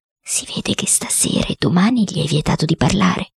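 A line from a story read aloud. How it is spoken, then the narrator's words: Low voice. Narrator (Italian): il cuoco disse a bassa voce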